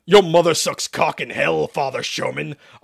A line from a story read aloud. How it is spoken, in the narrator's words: Isaac spat